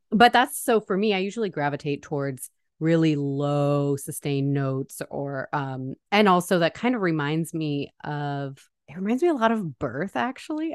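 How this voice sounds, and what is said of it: Voice lower than usual. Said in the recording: “You can probably tell because I'm getting over being sick. It's lower than usual.”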